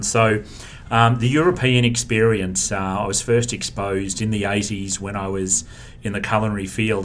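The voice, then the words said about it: Australian accent. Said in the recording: “you've probably picked up the accent, not from Brooklyn, it's from Australia”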